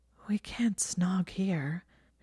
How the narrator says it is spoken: said, panting faintly

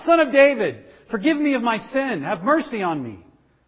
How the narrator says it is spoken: he couldn't control himself and he again shouted out

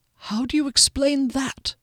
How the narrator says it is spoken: Duskellen said softly

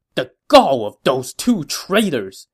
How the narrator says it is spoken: he said angrily

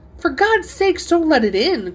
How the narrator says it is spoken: cried the old man, trembling

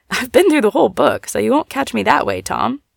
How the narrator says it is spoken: saying, as she looked up with a laugh

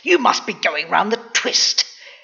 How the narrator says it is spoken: his mother hissed

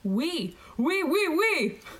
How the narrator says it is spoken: He yelled at the screen

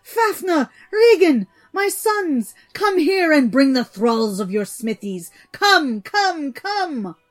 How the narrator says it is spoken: he shrieked out

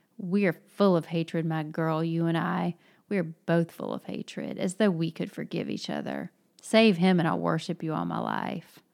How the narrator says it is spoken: Grushenka, pausing for an instant in a vindictive, venomous voice, answered

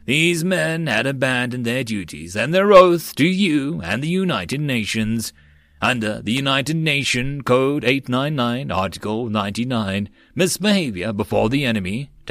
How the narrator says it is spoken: Tavar spoke in a solemn voice

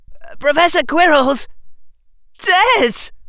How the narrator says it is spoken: wailed Harry Potter

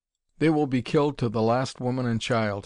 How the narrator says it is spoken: he replied

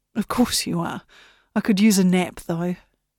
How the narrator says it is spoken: sighed

